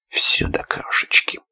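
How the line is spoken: Detached rustling voice. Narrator (Russian): отрешенным шуршащим голосом отозвался Исаул

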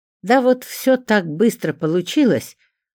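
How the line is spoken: Exaggeratedly cheerful. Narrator (Russian): преувеличенно радостно сообщил ему Леонид

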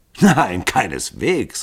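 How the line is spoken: Laughing call. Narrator (German): rief Hall lachend

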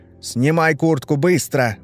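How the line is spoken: Sharp shout. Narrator (Russian): прикрикнул он

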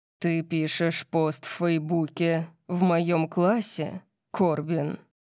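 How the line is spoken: Terrifying growl. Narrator (Russian): Орион зарычал, его ужасающим тоном

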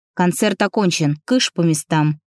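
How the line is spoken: Loud bark. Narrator (Russian): гаркнул Антон

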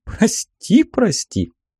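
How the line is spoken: Soft laugh. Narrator (Russian): тихо рассмеялась Аллегра

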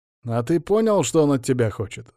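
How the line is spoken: Plain. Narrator (Russian): спросил Астарабадди

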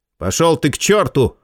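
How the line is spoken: Snapping retort. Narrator (Russian): огрызнулся Джо

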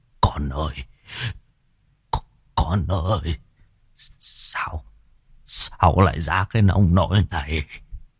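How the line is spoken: Shocked old man stammering. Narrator (Vietnamese): Gương mặt của ông trắng bạch cắt không còn giọt máu, lắp bắp

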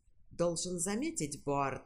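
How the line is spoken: Plain. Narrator (Russian): сказал доктор Мейфилд

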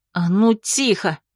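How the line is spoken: Low, intense growl. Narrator (Russian): Негромко, но проникновенно рыкнула я

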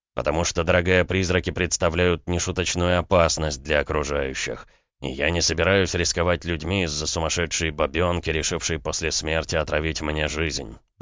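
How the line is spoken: Count, through clenched teeth. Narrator (Russian): процедил граф

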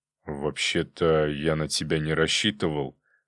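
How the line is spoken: Displeased grumble. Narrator (Russian): недовольно проворчал

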